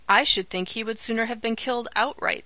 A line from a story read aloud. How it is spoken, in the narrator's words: exclaimed the girl